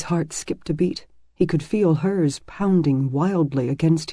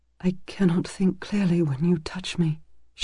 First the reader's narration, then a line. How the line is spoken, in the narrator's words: she whispered